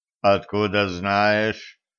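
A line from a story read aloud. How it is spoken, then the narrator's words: Too calm question. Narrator (Russian): слишком спокойно переспросил Верзила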